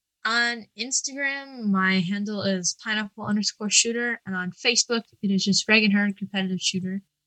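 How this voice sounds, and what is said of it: East Coast American accent. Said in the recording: “you have like a sort of an East Coast accent. ... I love East Coast accent. ... it's just the way that you pronounce things”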